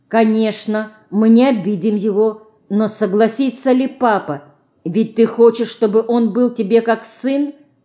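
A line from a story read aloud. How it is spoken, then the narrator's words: Stern question. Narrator (Russian): строго спрашивает Алина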